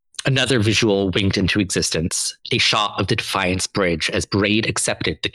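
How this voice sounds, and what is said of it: Usual voice. Nothing is said of it.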